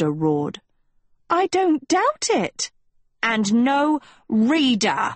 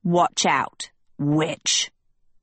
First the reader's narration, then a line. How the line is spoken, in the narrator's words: Hester spat